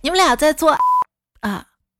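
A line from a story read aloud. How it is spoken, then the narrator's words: Loud, surprised. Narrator (Chinese): 我一进门还挺惊讶的，然后大声说了句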